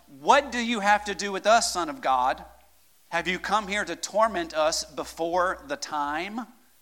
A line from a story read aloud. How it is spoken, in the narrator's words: Suddenly they shouted